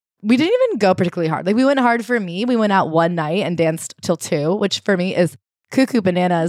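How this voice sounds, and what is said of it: Hoarse, weakened voice. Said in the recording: “If I had woken up yesterday sounding like this ... laryngitis ... I'm having a hard time being loud”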